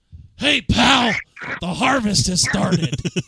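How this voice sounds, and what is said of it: Vince McMahon impression. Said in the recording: “I'm now picturing the Master cutting Eric Bischoff promo... I'm going to do my impression of him talking as the Master... Vinnie Mac”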